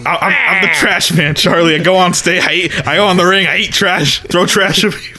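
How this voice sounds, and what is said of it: Imitates another person's voice. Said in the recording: “isn't it Danny DeVito's voice?”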